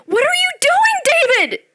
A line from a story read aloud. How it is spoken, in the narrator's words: she screamed